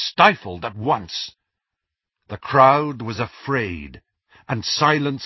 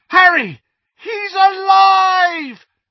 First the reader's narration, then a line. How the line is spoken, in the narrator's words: The yell of shock